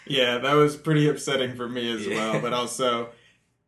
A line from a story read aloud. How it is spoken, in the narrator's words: I laughed out loud